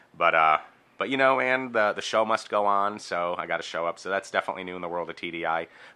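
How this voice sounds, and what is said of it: Sick, congested-sounding voice. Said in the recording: “I am sick right now. So what you're hearing in my voice is, in fact, not puberty, but a cold.”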